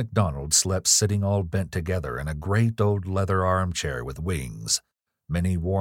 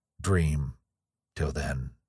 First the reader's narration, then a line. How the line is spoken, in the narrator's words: murmured